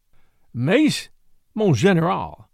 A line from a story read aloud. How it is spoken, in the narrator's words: I stammered